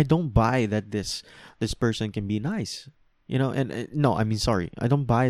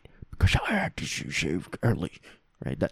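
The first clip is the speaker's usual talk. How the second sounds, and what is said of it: Impression of Joel. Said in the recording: “That's my Joel impression.”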